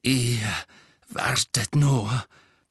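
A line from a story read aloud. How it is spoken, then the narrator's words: Hateful panting. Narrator (German): keuchte er mit unverhohlenem Hass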